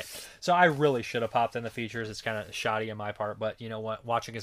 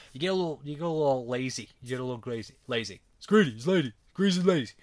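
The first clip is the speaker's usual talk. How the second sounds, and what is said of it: Poor imitation of another person's voice. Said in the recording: “that Stallone and terrible Stallone impression”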